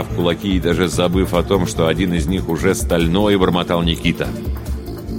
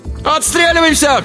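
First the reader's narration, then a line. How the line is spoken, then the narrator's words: Shout. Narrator (Russian): крикнул Алибек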